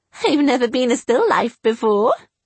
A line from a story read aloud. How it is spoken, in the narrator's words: I giggled